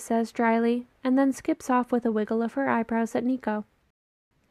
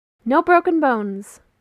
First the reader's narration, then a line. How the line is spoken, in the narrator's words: Will says brightly